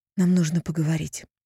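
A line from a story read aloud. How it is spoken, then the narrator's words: Breathless. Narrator (Russian): выдохнула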